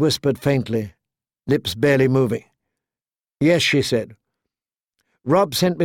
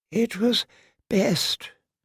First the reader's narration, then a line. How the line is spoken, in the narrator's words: her father whispered